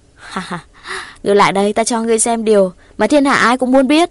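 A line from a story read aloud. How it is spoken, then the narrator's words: Laughing demon girl. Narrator (Vietnamese): Ma nữ bật cười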